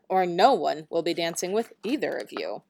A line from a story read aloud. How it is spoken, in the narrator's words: snapped their mother